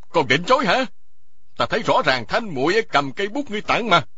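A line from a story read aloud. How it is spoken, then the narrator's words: Loud shout. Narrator (Vietnamese): Y quát to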